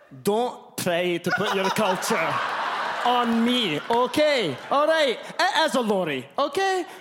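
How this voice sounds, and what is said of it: Bad put-on Scottish accent. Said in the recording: “this is a terrible Scottish accent”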